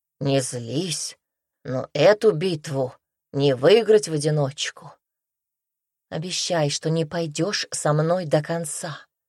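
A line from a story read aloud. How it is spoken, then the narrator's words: Trembling plea. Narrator (Russian): дрожащим голосом попросила Руми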